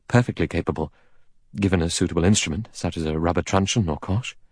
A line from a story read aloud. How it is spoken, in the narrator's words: The doctor said calmly